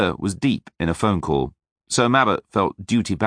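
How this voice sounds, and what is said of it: Usual voice. Nothing is said of it.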